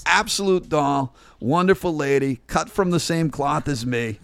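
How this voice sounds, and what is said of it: Boston, Massachusetts accent. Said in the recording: “He reminds me of family in Boston. ... My mom's accent.”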